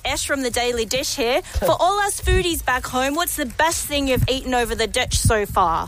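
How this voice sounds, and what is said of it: Put-on New Zealand accent. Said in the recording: “that was a New Zealand accent”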